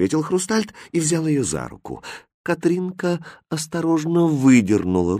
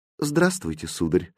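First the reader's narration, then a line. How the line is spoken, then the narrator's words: Sad greeting. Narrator (Russian): грустно приветствовала она Хрустальда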